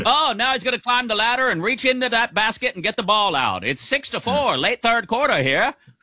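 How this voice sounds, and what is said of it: Old-timey radio announcer voice. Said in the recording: “Old timey radio voice.”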